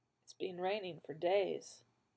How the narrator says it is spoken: he said quietly

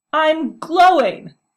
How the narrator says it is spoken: shrieked again, stressing the last word to make the doctor realize the gravity of the situation

